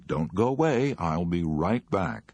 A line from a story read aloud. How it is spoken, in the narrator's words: said cheerfully